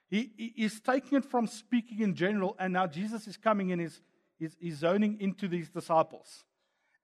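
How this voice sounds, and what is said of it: Afrikaans accent. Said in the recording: “my Afrikaans accent”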